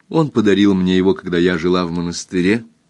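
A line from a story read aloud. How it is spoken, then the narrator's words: Plain. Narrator (Russian): сказала дочь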